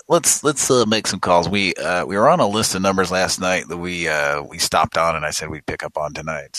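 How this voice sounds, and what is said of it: Rough, scratchy voice. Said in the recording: “I apologize for my voice. ... my throat is itchy and. It's bad. It's not good.”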